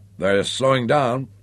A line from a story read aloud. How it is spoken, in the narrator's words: Hank Peterson, the helmsman, pointed out huskily